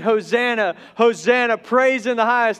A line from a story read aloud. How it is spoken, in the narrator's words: the children were shouting